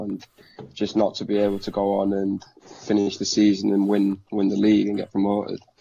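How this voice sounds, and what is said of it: Yorkshire accent. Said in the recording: “that's a Yorkshire twang on your accent and everything like that. Yorkshire accent”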